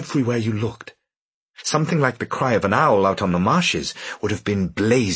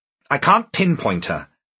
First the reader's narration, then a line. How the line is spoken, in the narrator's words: Bonneville snapped